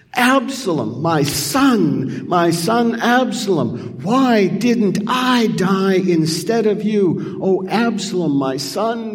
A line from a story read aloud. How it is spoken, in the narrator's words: He wails